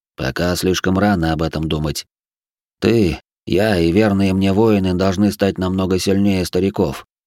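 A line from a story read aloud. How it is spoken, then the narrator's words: Grumbled. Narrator (Russian): проворчал мрак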